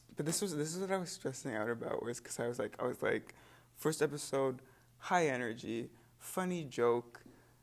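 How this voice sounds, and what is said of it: Tired, flat low-energy voice. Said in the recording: “I'm so tired ... my voice is really boring right now”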